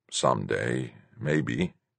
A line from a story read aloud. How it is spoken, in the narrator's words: murmured